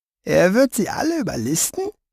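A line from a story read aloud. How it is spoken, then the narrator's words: Thin voice. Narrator (German): sagte er mit seiner dünnen Stimme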